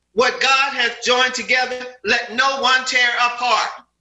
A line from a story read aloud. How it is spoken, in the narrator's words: one little fellow piped up and shouted